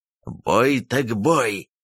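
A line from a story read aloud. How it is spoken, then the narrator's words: Growled while chewing. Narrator (Russian): прорычал Марвук, что-то пережевывая отсутствующими зубами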